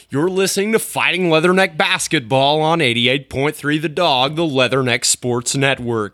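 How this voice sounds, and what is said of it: Radio sports broadcaster voice. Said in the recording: “Reminds me of my old broadcasting voice.”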